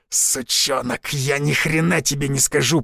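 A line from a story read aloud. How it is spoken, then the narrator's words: Man growling through blood. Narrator (Russian): пуская кровавые пузыри, прорычал мужчина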